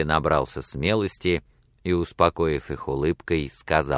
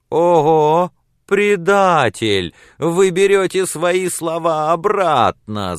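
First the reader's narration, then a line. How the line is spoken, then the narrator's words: Women shouting. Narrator (Russian): закричали женщины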